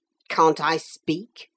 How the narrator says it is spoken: sharply

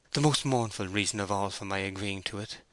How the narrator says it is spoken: she said sadly

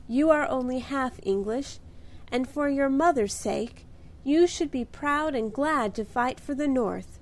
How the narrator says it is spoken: cried Belle warmly

